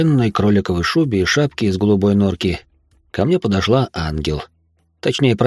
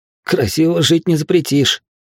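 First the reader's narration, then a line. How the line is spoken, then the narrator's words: Wry snort. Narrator (Russian): хмыкнул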